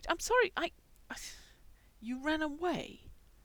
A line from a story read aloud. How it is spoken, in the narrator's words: squeaked